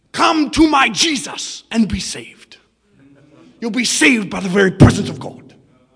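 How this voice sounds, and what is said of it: German-accented worn-out preacher voice. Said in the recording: “with his German voice ... him shouting so much at the crusades, he spent his voice for the gospel. Now he talks like this. ... Doing my best Reinhardt voice.”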